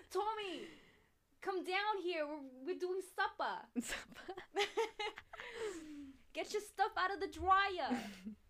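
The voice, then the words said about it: Staten Island mom accent. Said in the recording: “A Staten Island ... mom ... Staten Island mom”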